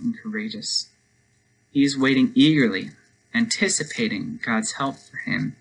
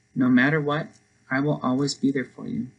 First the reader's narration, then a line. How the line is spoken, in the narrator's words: he said